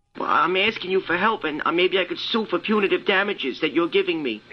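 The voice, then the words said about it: Odd Indian accent. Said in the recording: “It's an odd Indian accent that Raphael Samuel has, admittedly.”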